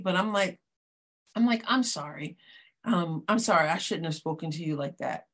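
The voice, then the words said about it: Choked-up, emotional voice. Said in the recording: “every time I say this, I kind of get choked up”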